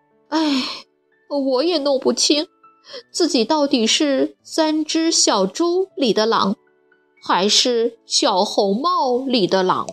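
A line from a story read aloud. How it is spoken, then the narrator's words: Glum, sighing. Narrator (Chinese): 大灰狼哭丧着脸，叹了口气说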